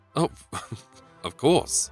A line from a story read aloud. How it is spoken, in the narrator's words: stammered the officer